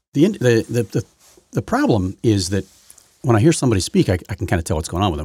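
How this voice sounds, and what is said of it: Throaty, slightly off voice. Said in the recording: “my voice is not normal this morning. I've got something going on with my throat... trying to clear my throat, and it's just not working... coats my throat”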